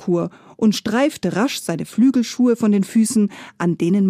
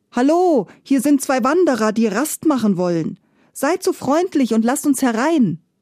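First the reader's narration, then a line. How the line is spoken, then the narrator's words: Calling out. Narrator (German): rief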